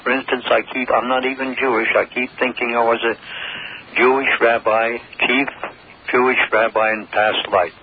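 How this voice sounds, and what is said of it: Eastern US Connecticut accent. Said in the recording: “you almost have a little Jewish accent there ... That's an Eastern accent ... Connecticut ... Accent.”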